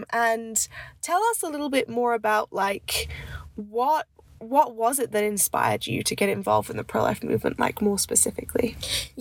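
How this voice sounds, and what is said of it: Congested voice. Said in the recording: “excuse my voice. I'm a little bit congested”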